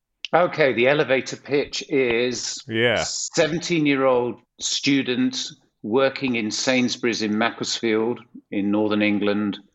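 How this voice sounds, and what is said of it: Non-American accent. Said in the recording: “Your accent obviously gives you away. You are not from Santa Monica.”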